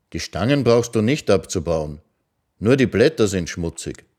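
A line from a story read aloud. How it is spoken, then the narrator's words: Calm. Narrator (German): sagte er ruhig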